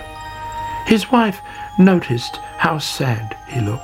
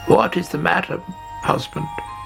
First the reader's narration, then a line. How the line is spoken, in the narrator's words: croaked